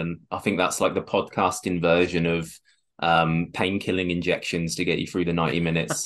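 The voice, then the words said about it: Hoarse voice with a cold. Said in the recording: “I've got a bit of a bit of a cold tonight ... if I'm a bit hoarse, that's why.”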